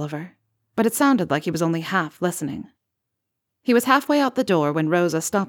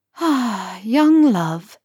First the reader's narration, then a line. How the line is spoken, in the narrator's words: Rosa sighed